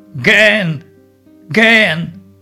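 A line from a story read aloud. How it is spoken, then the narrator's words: Yelling. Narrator (Russian): заорал он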